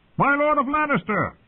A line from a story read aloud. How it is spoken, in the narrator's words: called out